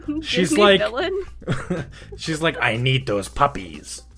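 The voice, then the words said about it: Imitates another person's voice. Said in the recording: “I don't do a very good my mom impression”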